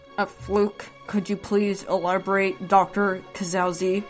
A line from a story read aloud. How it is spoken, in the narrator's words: the woman said to Ephraim through clenched teeth